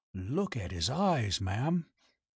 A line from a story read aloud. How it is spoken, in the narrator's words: He drew in his breath ... and whispered